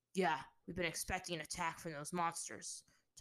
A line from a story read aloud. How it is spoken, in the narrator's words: growled